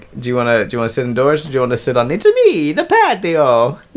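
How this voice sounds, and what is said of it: Cartoonish Italian Mario-style voice. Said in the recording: “do a Mario voice”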